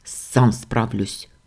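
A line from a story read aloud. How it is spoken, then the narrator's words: Grumbling. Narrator (Russian): буркнул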